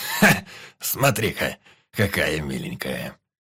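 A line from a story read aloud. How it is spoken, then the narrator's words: Smirking snort. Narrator (Russian): хмыкнул Ханас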